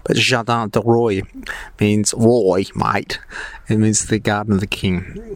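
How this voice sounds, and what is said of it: Australian accent. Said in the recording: “Forgive my French accent, there's none. There is no French accent. My Australian accent”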